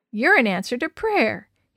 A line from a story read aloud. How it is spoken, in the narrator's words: said between chuckles